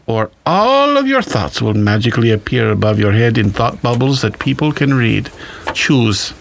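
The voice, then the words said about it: Weird flamboyant German accent. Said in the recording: “you're doing it in a weird, scary, flamboyant German accent”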